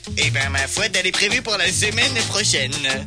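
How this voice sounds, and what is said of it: Accent like Chirac and Garcimore. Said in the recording (French): “l'autre qui a l'accent de Chirac et Garcimore? C'est horrible!”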